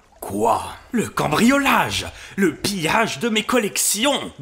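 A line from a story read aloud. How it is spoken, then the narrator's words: Impatient exclamation. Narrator (French): Ganimard s'écria d'un ton d'impatience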